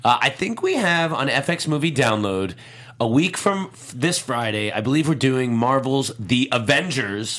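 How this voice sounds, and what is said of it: Voice with a slight cold. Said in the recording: “I have a little bit of a cold”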